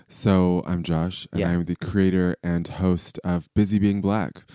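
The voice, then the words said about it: Lovely voice with an accent. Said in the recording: “Your voice is just amazing ... You love a guy with an accent ... It just sounds so lovely”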